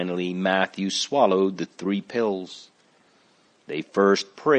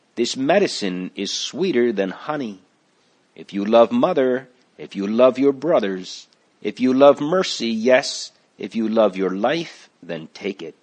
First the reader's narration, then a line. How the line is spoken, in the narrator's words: she cried out